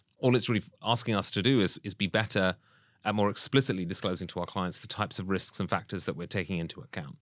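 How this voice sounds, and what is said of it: British accent. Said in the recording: “people will pick up from the accent, I'm from the UK.”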